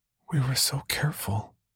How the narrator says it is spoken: Brenda whispered

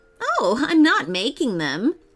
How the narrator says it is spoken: laughed the professor

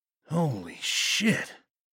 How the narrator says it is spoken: he breathed

